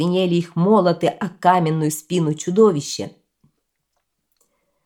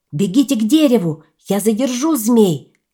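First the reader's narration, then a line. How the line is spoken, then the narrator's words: Shout. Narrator (Russian): Лао Сань крикнул братьям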